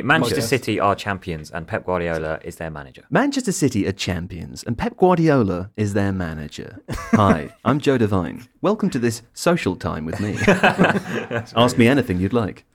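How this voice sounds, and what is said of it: Polished voiceover announcer voice. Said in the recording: “my voiceover voice or my normal voice? ... Do your voiceover voice.”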